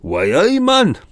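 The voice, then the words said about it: Weak put-on Geordie accent. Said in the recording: “That was my really feeble attempt at a Geordie accent.”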